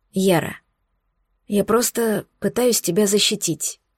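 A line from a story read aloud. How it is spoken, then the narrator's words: Unexpectedly quiet. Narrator (Russian): неожиданно тихо сказал Хром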